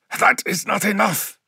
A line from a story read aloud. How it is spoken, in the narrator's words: gasped Shaban, only just blocking the strike and nearly losing his footing